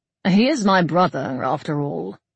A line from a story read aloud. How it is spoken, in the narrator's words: Summerled said dryly